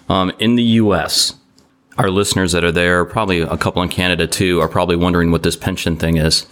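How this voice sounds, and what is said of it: Non-American accent. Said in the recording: “If you can tell by my accent, I don't live here.”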